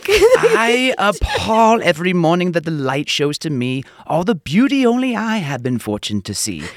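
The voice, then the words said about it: Mock Shakespearean theatrical recitation voice. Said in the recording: “In my best Shakespeare voice”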